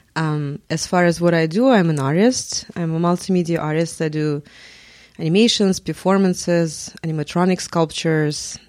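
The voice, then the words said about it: Russian accent. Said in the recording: “oh, I have oh, okay. an accent. ... I'm from Russia, lived in Moscow”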